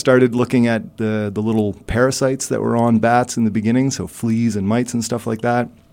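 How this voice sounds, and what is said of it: Strong Canadian English accent. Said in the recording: “I started in a place called Canada, where I'm sure your listeners can tell that's where my outrageous accent is coming from.”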